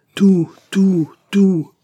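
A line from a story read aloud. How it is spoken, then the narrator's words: Echoing roar. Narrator (French): rugit le cœur en écho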